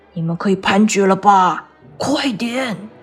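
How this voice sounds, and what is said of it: Quiet, hushed urgent speech. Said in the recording (Chinese): “小声的对陪审团说”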